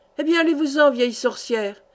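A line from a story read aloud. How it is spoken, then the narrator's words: Man growling angrily. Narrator (French): gronda l'autre turc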